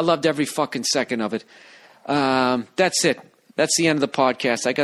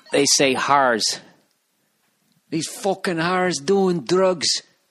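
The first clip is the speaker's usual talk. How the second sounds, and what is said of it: Clumsy imitation of Scottish accent. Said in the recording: “This is one thing I loved about Scotland. You know how they say whores over there? ... I'm fucking up the accent.”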